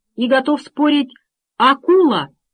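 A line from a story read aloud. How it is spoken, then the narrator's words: Sudden shout. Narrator (Russian): закричал вдруг Макс с ходового мостика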